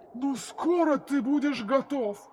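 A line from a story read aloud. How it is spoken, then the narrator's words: Booming thunderous voice. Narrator (Russian): прогремел горный король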